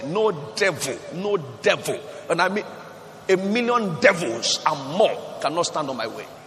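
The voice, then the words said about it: Shouting loudly. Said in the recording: “You know why I'm shouting? The way I'm shouting”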